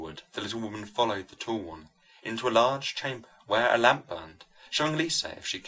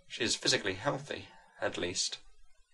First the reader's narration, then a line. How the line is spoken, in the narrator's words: she said gratefully